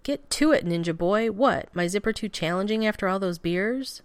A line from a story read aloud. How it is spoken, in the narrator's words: Steve growls